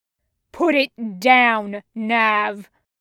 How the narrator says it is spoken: thundered Crux

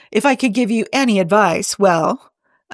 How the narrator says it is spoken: Amanda chuckled to herself

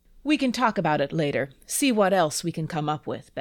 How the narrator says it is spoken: Ben said

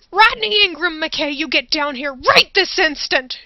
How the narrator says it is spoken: She screamed up the stairs

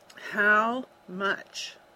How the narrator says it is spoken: Ezra ground out through clenched teeth

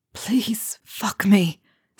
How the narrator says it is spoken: whispers of

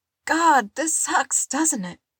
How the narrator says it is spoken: Robin wheezed

